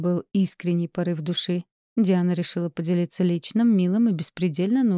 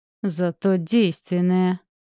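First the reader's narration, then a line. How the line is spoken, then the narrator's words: Through gritted teeth. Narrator (Russian): сквозь зубы сказала Диана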